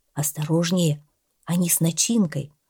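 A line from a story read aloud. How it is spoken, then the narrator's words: Quiet. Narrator (Russian): Володя тихо сказал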